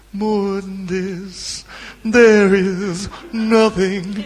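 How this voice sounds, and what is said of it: Sung impression of a pop singer. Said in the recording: “that was a good impression, actually.”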